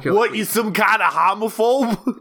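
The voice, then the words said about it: Attempted Boston accent, sounds Austrian. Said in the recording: “It's like the Boston accent. ... was that the Austrian part of Boston?”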